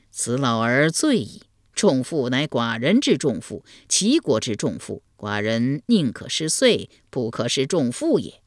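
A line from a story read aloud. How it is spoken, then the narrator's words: Delighted, laughing. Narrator (Chinese): 齐桓公闻言大乐，笑对陈蔡朱三军说道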